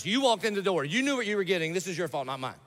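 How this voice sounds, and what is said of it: Yelling, loud preaching voice. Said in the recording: “I'm yelling”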